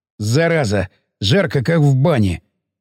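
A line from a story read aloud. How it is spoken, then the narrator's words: Sweaty snort. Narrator (Russian): фыркнул взмокший балаган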